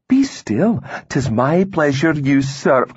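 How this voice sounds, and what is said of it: Lilting Scots accent. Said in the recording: “she said in a lilting Scots accent.”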